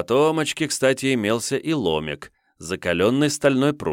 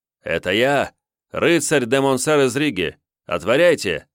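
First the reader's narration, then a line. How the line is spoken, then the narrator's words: Shout. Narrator (Russian): закричал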